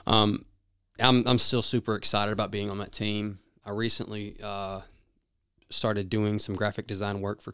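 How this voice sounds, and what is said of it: Southern US accent. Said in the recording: “my southern accent”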